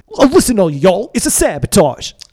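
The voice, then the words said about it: Old-school happy rap delivery. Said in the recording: “You almost had like a very old school, like Kool and the Gang style rap right there. Like happy rap.”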